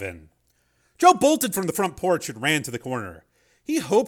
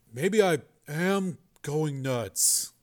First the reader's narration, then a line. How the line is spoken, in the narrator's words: muttered